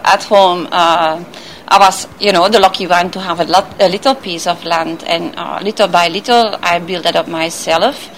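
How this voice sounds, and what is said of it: Flemish accent with Jamaican tinge. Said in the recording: “You have an accent, a little bit Jamaican and a little bit something else, Flemish or Dutch or something ... you had it right on the Flemish part. I'm from Belgium, from Antwerp”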